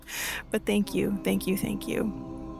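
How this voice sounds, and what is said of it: Choked-up emotional voice. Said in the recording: “I might get a little choked up here”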